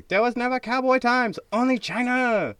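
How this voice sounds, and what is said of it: Poorly done put-on Chinese accent. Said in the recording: “really bad impersonation of a Chinese person”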